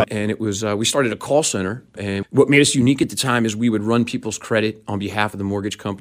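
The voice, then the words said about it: New York City accent. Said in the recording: “if your listeners haven't figured out from my accent yet, I was born and raised in New York City”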